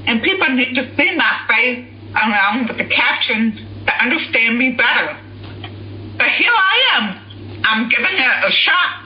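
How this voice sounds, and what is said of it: Noticeable accent. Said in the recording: “Voice search does not like my voice... because of my accent.”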